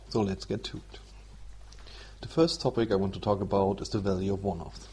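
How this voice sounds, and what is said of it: German-accented English. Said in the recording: “excuse my accent and maybe some bad English. I'm from Germany, so it's not my mother tongue.”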